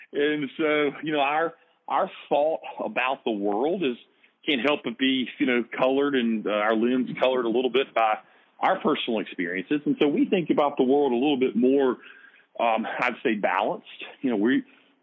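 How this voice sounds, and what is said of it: Southern US accent. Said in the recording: “as you can tell by my accent, I'm from the South, and it's not it's not South Jersey”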